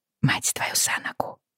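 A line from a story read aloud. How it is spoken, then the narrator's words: Quiet mutter under breath. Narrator (Russian): тихо пробормотала я себе под нос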